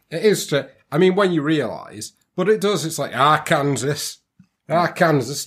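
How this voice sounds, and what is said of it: Put-on Yorkshire accent. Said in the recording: “talking a Yorkshire accent”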